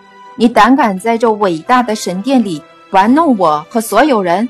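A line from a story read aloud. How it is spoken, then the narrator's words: Roaring. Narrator (Chinese): 大祭司大吼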